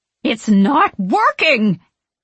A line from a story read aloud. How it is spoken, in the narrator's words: Winifred exclaims, exasperated